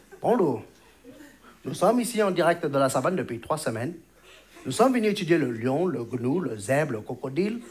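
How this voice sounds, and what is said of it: Put-on Chinese accent. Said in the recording (French): “ils ont pas tous cet accent ... un présentateur chinois”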